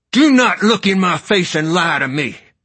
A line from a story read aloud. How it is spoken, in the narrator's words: father shouted